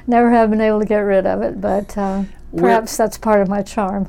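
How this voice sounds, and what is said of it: Slight Southern US accent. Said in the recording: “I detect a little bit of an accent there. You still have it. ... born in Memphis, Tennessee ... lived in Texas ... a bit of an accent that's different from California”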